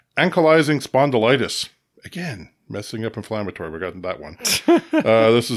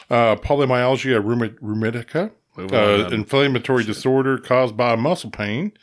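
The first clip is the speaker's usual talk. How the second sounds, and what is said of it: Put-on Southern US accent. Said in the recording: “I can only say inflammatory if I use my southern accent”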